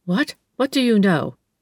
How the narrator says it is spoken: she stammered

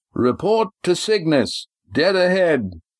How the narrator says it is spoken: Astraea shouted

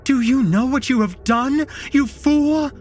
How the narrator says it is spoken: Anne screamed at me

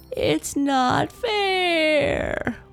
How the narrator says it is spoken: wailed Natalie

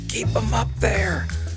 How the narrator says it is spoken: soft, wheezy breathing, the voice said

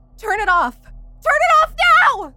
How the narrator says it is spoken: became frantic, again backing away and screaming

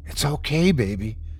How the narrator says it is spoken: he whispered back

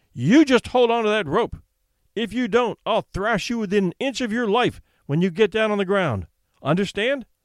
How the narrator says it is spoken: shouted sternly

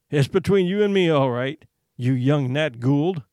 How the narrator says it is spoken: he said, laughing

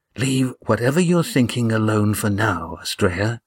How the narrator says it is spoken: whispered Gar

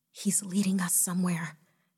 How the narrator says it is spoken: Jessica whispered excitedly

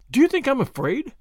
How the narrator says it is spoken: said Tuppence indignantly

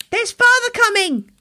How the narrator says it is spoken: cried the two young Cratchits, who were everywhere at once

